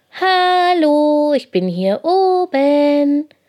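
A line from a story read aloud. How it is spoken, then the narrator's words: Calling from above. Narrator (German): ruft Lina von Pauls Rücken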